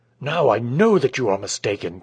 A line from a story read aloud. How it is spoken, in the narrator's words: cried the man, with growing earnestness